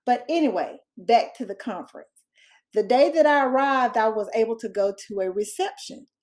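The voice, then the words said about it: Southern American accent. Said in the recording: “if you can't tell by the dialect yet, I'm a Southern girl”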